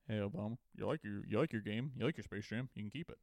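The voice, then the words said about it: Barack Obama impression. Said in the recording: “Barack Obama ... Oh my God, it's Barack Obama”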